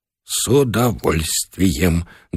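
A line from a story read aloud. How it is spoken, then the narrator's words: Trembling voice. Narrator (Russian): дрогнувшим голосом пообещал Бычков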